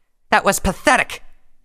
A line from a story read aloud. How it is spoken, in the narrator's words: snarled